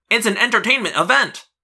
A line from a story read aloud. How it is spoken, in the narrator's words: Marco cried